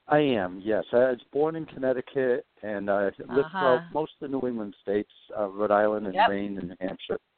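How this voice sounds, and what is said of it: New England accent. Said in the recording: “originally from New England ... I can hear the accent.”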